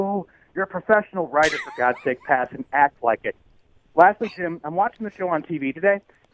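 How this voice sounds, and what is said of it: Usual voice. Nothing is said of it.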